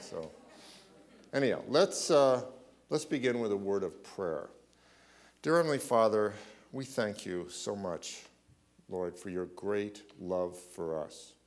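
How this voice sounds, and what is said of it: Slightly shaky voice. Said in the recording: “I got sick this week, so please bear with me. My voice is a little shaky”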